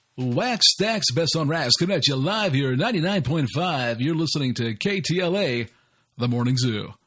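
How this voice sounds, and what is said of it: Morning radio jingle announcer voice. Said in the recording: “He's got a good radio voice. ... this guy would do like a radio jingle voice in the morning”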